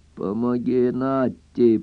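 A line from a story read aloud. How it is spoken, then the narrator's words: Hoarse wheeze. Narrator (Russian): прохрипел Скип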